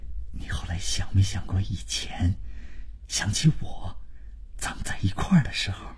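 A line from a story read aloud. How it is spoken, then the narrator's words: Low, sentimental voice. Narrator (Chinese): 万征就是开始煽情，他压低了声音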